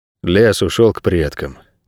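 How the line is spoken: Quiet. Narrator (Russian): тихо сказал Найред

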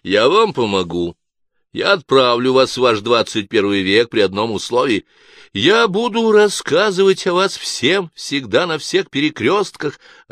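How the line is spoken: Joyful, disbelieving yell. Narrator (Russian): радостно завопил Гард, еще до конца не веря

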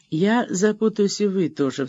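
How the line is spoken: Sighing. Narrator (Russian): вздохнула она

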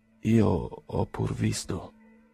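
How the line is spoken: Sad voice. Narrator (Italian): disse Pavel Petrovich con voce triste

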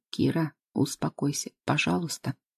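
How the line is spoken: Soft. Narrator (Russian): мягко произношу я

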